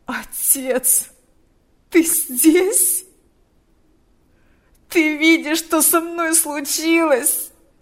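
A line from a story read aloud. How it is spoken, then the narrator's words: Moaning. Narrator (Russian): стонал он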